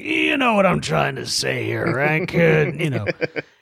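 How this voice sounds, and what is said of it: Imitates another person's voice. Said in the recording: “your impression there. It's pretty good.”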